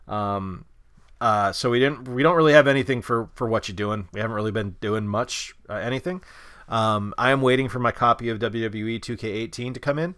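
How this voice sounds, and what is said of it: Sick, hoarse voice starting to go. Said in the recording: “Bob and I have both been really sick... You can hear it in my voice. My voice is starting to go.”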